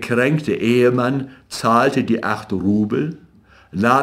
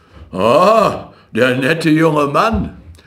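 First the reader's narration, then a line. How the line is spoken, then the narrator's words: Doctor calling out. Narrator (German): rief ihm der Doktor zu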